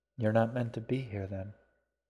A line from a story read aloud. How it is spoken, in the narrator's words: the queen said quietly